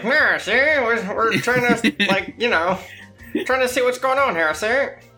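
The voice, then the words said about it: 1920s gangster bootlegger voice. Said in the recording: “a 1920s bootlegger character ... more accents from”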